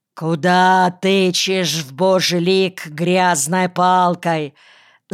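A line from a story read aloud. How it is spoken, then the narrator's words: Angry, ungodly shout. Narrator (Russian): закричал отнюдь неблагочестивым голосом отец Вениамин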